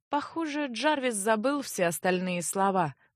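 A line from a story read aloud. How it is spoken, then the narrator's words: Quiet secret sigh. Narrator (Russian): вздохнула тайком хранительница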